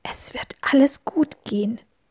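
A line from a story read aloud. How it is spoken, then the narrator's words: Whispered reply. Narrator (German): wisperte Peter zurück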